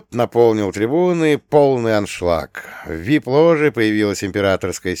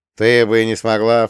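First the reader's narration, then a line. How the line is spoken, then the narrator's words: Snorting. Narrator (Russian): фыркнул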